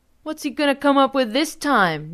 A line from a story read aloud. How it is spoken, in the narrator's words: Nelson hollered